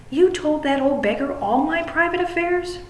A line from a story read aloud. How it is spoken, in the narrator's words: cried Huey, looking very red and angry